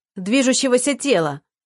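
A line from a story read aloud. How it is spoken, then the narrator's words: Shouted out. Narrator (Russian): буквально выкрикнул Егор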